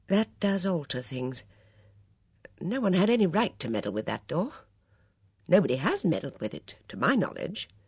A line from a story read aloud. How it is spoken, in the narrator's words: said quietly